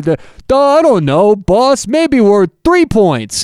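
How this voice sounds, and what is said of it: Dim-witted idiot character voice. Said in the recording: “do my idiot voice.”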